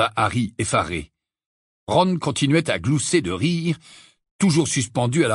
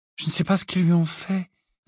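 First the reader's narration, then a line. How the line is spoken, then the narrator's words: Sad reply. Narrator (French): répondit tristement Luna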